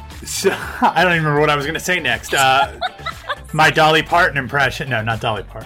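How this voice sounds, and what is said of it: Usual voice. Nothing is said of it.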